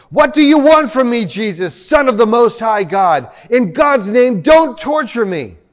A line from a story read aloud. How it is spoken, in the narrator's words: he shouted at the top of his voice